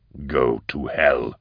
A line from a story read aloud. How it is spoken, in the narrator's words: grunted Eisenhorn